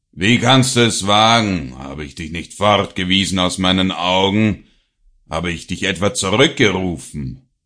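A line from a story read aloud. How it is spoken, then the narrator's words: Father's angry shout. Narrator (German): rief der Vater zornig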